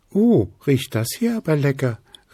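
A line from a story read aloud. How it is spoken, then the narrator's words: Cheerful little girl calling. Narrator (German): rief Luzi, das kleine Wichtelfräulein mit den blauen Zöpfen, fröhlich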